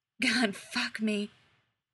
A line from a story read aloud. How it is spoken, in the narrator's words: he whispers